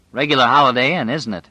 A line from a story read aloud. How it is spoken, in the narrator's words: Larry said dryly